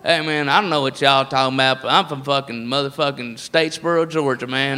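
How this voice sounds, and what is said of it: Put-on redneck Southern accent. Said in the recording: “the redneck voice is all over the place”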